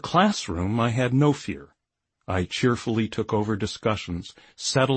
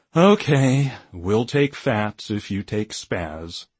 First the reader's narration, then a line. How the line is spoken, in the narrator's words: After much disgusted stalling, one captain would sigh dramatically and say